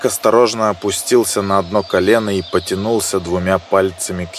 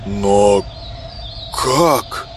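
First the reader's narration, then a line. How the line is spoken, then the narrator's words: Stunned, forced out. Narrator (Russian): с приоткрытым ртом выдавил из себя мужчина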